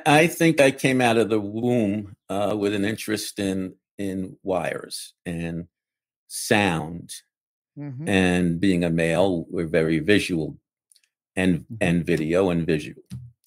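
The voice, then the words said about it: Bronx New York accent. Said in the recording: “I grew up in the Bronx... My accent wouldn't give that away at all”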